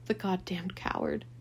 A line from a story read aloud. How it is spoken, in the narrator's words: he whimpered